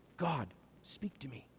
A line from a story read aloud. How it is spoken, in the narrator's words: a man whispers